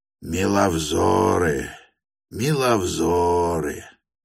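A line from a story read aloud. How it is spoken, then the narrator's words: Hoarse bass exclamation. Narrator (Russian): Изволил он выговорить сиплым баском и с легким восклицанием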